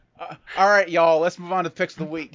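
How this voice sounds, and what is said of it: Put-on Southern US accent. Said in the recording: “That was pretty good. ... I can do that. It's much easier to do like a Southern accent”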